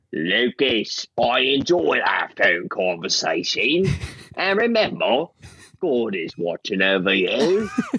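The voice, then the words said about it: Put-on cockney-style accent. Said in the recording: “Was Phil Australian or New Zealand? ... similar accent. ... Thank you for the cockney.”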